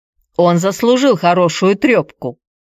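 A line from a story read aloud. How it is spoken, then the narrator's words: Grumbling. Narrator (Russian): проворчал Петр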